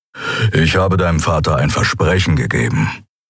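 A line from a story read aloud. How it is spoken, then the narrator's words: Grumble. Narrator (German): brummte Keru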